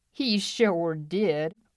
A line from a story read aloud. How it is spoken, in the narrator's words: old Tom Curtis chuckled